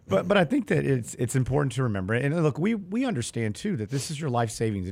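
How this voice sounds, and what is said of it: Hoarse, nearly lost voice. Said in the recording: “my voice is gone. I barely talk.”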